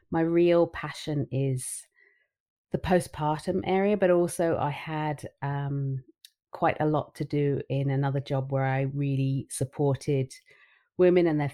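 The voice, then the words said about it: London English accent. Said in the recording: “you can probably hear that I'm not from anywhere near you, but I hail from London. I'm a proper Londoner ... But the accent is still the same.”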